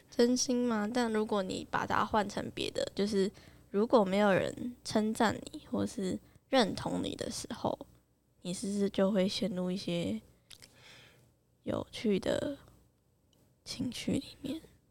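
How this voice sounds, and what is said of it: Quiet, mocking tone. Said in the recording (Chinese): “你讲这么小声，你感觉很像在怎么嘲讽某个人”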